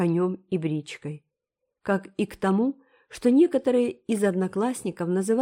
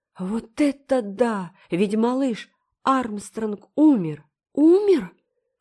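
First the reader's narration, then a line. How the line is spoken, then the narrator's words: Horrified exclamation. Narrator (Russian): В ужасе воскликнула Энн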